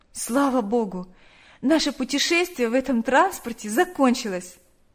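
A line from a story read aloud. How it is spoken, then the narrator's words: Sigh. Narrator (Russian): вздохнула Наташа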